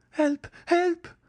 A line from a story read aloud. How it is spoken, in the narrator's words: cried Mademoiselle d'Armilly